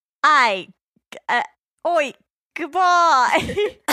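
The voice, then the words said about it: Put-on New Zealand accent. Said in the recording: “say goodbye to everyone in my New Zealand accent”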